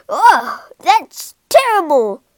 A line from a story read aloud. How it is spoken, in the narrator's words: he shouted